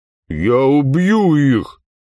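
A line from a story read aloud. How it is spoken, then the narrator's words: Hoarse, trembling with hatred. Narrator (Russian): Задрожав от нахлынувшей на нее ненависти, прохрипела Тия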